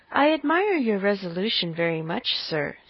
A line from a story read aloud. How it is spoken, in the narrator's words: said he